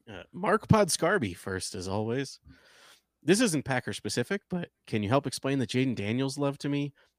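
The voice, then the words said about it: Formal business voice. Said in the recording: “business voice”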